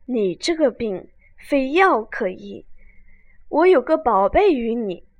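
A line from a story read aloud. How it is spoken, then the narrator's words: Sighing. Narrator (Chinese): 那道士叹道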